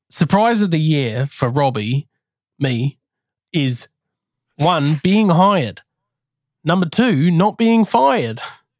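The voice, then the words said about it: Put-on Australian accent. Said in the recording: “Crocodile Dundee. Come from land down under. Vegemite sandwich ... Before you try and say that this is the same accent, it's not, okay? It's very different.”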